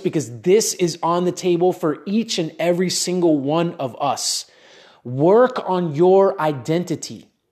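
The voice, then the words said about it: Excited, energetic delivery. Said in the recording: “I'm really excited as I share this. If you can't tell in my voice”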